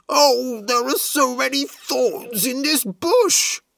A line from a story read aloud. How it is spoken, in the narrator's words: cried Doggo